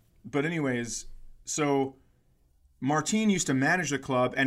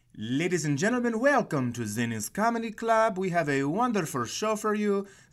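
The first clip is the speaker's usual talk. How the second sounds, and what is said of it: Put-on Mexican accent. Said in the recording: “Martin grew up in Mexico, had a little bit of an accent, and I will be doing it ... Here comes an ethnic impersonation”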